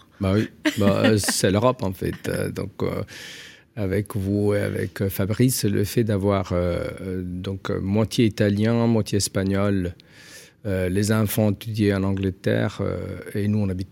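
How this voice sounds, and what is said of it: Singsong Italian accent in French. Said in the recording (French): “ce petit accent chantant ... vous êtes italien”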